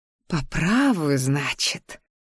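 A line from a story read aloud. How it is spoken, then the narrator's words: Silent inner growl. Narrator (Russian): прорычала я мысленно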